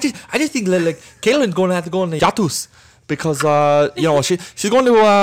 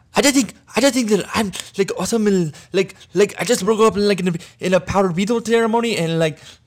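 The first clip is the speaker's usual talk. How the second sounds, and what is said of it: Hard-to-understand imitated accent. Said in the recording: “try to do a JC accent ... We're going to have to put subtitles on for our listeners so that they can understand everything you just said”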